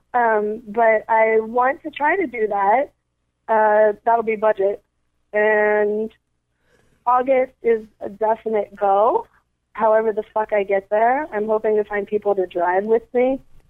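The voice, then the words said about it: Hoarse, nearly lost voice. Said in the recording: “Sorry, my voice is kind of gone.”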